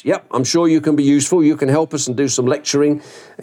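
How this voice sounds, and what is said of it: Gruff imitated voice. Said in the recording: “in this gruff voice”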